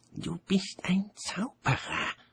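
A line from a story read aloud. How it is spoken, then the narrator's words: Hissed. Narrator (German): zischte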